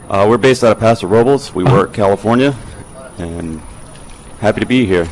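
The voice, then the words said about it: Slight Southern US accent. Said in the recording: “a touch of a southern accent ... I'm from South Carolina”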